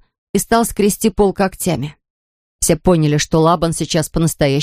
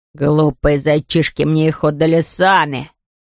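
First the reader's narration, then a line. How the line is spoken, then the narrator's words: Hissed. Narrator (Russian): прошипел Лабан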